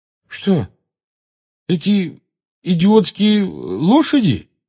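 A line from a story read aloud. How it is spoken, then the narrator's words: Uncertain question. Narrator (Russian): неуверенно спросил Рон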